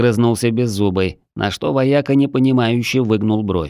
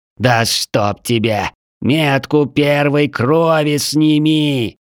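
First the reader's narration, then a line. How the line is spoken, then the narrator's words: Slow, condescending, through teeth. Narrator (Russian): Медленно, словно говорит с идиотом, процедил Вечный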